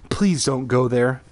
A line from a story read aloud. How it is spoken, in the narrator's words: Carly Beth begged